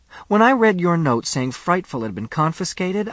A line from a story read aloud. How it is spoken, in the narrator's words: I cried